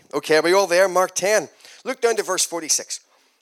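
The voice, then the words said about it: Irish accent. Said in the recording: “I come from Ireland. So if you can't understand my accent, just listen harder.”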